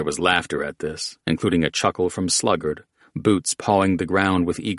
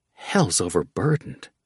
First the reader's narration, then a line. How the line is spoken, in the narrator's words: Thresher gasped